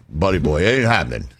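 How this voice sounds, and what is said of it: Imitates another person's voice. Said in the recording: “Doing the voice.”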